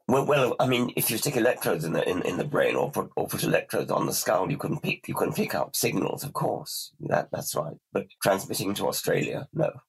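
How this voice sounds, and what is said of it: Voice in poor condition. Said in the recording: “I really must apologize for my voice. I thought I could handle it today, but it's obviously not.”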